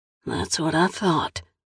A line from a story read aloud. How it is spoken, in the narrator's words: the signalman mutters, only half to himself